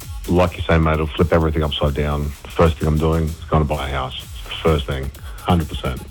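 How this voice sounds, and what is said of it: Deep voice. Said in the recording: “You got a deep voice there ... Voice for radio”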